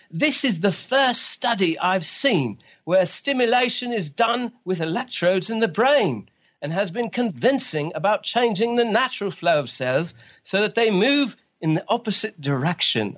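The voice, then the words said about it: Excited Australian-accented impression. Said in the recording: “my Alan Trounson imitation because he's very excited. ... And he's very Australian.”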